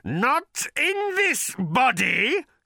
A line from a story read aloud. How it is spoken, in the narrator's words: screeched the creature